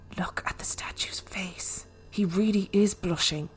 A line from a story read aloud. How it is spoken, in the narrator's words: My sister whispered